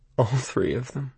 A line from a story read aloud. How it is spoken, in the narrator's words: I muttered